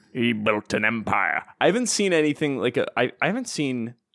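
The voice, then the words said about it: Exaggerated Scottish accent impression. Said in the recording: “good Logan Roy impression? ... not really. No, he's not nearly that Scottish.”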